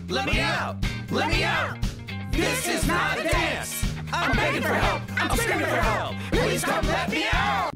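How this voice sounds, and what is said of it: Singing. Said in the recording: “Please sing. Keep singing.”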